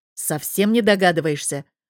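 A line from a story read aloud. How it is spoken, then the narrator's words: Angry growl. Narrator (Russian): Прорычал он почти со злостью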